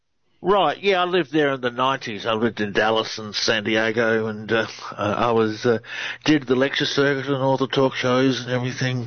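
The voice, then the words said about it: Australian accent. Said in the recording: “Australian researcher. Love the accent. ... You all have the accent ... You do. You have a great one.”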